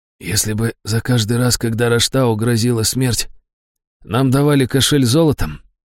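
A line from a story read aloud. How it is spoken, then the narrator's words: Hoarse, coming round. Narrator (Russian): хрипло проговорил Брэмстон, приходя в себя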